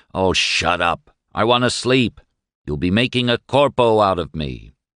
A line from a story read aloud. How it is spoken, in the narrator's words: all the other five had growled